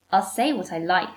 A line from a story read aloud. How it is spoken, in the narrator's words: she snaps, going from laughter to cold steel in a heartbeat